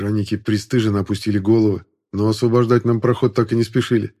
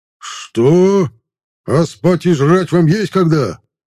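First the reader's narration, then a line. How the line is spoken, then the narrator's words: Louder yelling. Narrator (Russian): Пуще прежнего заорал наемник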